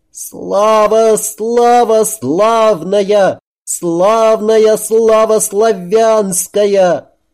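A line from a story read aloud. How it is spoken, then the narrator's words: Desperate high unearthly sung cry. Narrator (Russian): Избитый мальчишка, перекосив лицо в последнем напряжении, в отчаянии высоким, нездешним голосом закричал, запел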